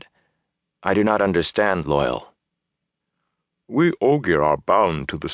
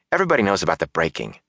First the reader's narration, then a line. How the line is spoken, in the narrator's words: Matt said impatiently